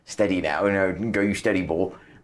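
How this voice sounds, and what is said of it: Bad put-on Norfolk accent. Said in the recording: “That was a very bad Norfolk accent.”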